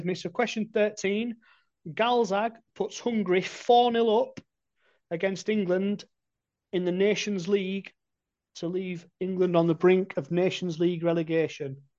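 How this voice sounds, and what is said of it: Northern English accent. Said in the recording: “With that accent, mate, I could picture you on Coronation Street shouting it across the cobbles.”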